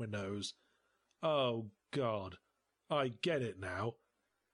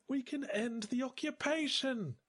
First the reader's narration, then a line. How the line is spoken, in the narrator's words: she cried